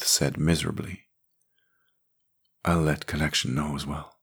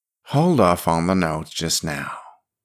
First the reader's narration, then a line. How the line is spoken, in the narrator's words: she said, her tone softening